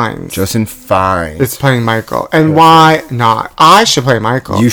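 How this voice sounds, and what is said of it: Usual voice. Nothing is said of it.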